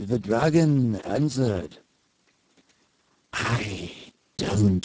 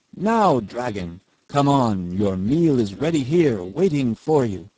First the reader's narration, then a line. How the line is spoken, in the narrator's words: called out loudly